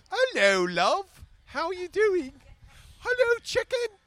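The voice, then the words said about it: Put-on English chimney-sweep accent. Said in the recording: “Sometimes I do a great English accent ... She sounds like she could be a chimney sweep sometimes ... I sound like Mrs. Doubtfire”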